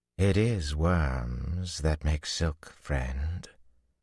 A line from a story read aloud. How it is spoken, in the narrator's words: a man drawled behind him